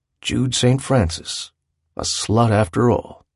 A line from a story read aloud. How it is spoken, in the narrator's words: had said in his low voice